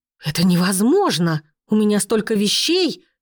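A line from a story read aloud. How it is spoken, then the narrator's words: Angry exhale. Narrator (Russian): выдохнула та, зло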